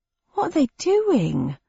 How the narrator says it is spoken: asked the cabbie, his voice tremulous with rising fear

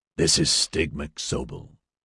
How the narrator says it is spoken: Scott rasped in his damaged voice

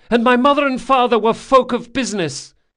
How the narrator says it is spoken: he yelled

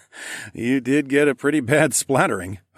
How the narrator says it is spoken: I chuckled

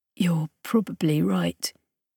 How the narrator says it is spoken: he whispered

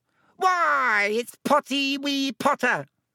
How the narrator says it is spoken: cackled Peeves

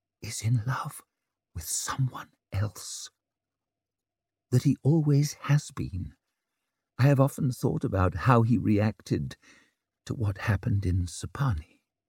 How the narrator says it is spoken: she fixed him with her eye and whispered the words

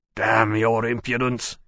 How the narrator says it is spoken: growled

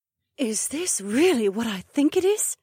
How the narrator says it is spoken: Emma gasped

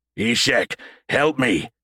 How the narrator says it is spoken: Caleb growled, heart pounding

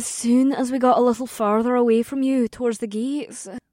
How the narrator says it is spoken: Amber sighed

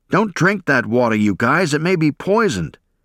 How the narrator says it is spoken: A company corpsman yelling

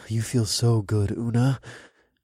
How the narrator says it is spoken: breathed in her ear

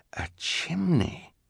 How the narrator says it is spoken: Klaus murmured

